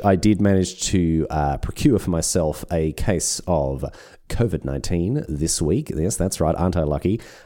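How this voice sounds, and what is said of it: Deeper, smoother, sick-sounding voice. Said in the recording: “my voice is not up to scratch ... The old voice has been, you can hear what it sounds ... It does sound a little deeper, maybe a little smoother, that sonorous baritone coming your way”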